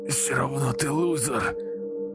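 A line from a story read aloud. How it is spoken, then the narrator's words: Groaning in pain. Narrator (Russian): Простонал майор, свисая с дерева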